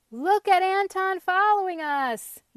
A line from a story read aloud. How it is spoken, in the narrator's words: yelled Pumpkin